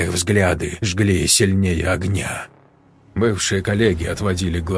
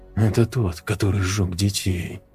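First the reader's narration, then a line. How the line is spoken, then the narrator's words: Group whispering. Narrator (Russian): шептались они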